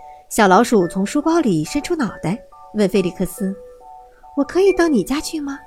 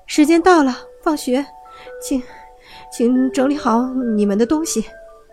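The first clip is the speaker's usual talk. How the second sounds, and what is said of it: Trembling, shaky voice. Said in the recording (Chinese): “用颤抖的声音说”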